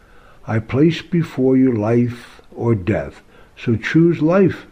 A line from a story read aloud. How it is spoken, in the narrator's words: it says